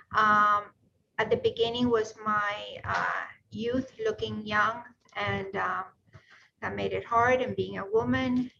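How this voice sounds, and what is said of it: Hispanic-accented English. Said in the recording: “my accent, which obviously I can try to work on, but as much as I want to, it is what it is ... Hispanic”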